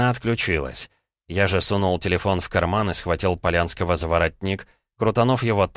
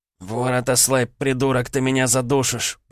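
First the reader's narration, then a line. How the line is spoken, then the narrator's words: Hoarse wheeze. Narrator (Russian): прохрипел Денис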